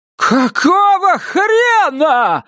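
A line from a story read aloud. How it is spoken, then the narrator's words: Yelling. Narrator (Russian): заорала Вильма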